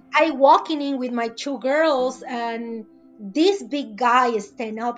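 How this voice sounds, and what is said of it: Non-native English accent. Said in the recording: “right now I have an accent ... break English”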